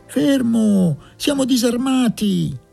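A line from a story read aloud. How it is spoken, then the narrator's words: Distant shouting voice. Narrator (Italian): gridò una voce dal fondo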